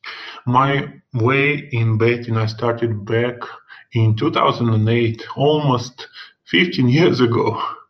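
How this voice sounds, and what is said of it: Russian accent. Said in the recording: “my funny accent, of course, I'm from Russia”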